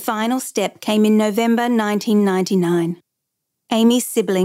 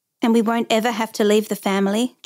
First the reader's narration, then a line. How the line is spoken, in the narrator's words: Joseph asked